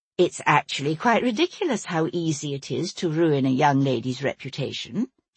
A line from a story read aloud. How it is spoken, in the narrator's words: said, in a pleasant conversational tone